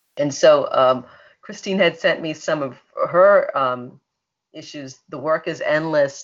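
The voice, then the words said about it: Speaks with a distinct accent. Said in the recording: “love the way you say lumbar ... that's my accent. I can't help it.”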